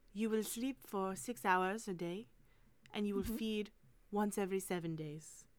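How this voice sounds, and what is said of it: Light put-on French accent. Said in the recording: “she speaks English very well. So she doesn't do the French R as much ... French is a sexy accent.”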